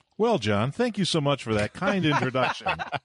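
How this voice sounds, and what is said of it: Polished radio announcer voice. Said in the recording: “You have a much better radio voice than I do”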